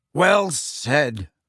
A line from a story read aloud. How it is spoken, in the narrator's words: barked Ernie Macmillan